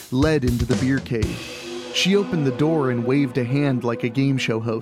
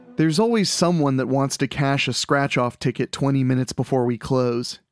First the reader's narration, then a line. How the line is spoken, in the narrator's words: said